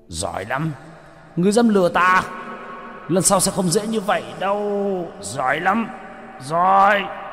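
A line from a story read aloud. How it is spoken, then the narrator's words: Furious roar. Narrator (Vietnamese): Hải Xoa gầm lên tức tối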